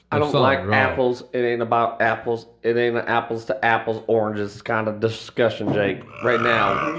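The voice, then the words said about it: Southern drawl. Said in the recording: “It does make you talk with a southern accent, though ... You got more of a southern drawl there.”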